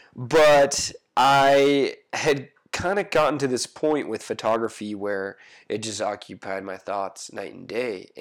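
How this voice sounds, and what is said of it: Congested, stuffy-nosed voice. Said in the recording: “apologize for my voice. I'm just getting over a head cold. So if it sounds like I'm speaking through a megaphone, like a snot megaphone backwards”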